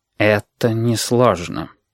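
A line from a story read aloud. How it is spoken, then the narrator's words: Dull, muffled voice. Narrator (Russian): глухо сказал Стерх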